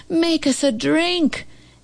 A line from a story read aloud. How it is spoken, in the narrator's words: they yelled